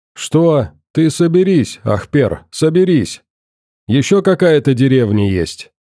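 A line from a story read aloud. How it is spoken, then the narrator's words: Calm questioning. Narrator (Russian): Спокойно продолжал вести допрос добрый коп, роль которого примерял армянин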